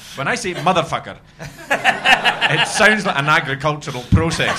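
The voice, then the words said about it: Scottish Perthshire accent. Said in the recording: “I'm very aware of my accent because I was brought up in Perthshire”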